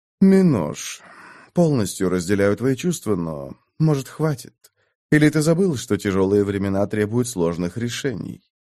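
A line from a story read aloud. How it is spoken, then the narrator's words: Sighing. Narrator (Russian): Тверян вздохнул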